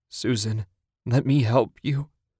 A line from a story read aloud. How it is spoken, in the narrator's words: Ted croaked